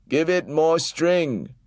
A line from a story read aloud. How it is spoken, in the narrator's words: shouted